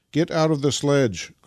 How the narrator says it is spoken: cried Nikita to Vasily

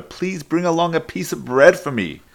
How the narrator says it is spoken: he called out to her

